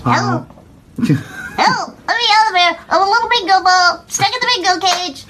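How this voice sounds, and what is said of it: Ventriloquist dummy voice. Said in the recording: “You sounded like a ventriloquist dummy.”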